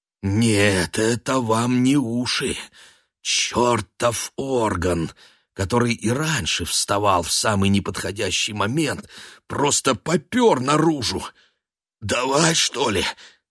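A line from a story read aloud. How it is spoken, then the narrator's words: Hoarse wheeze. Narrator (Russian): Просипел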